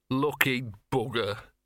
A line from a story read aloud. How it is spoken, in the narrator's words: sighed Gaspode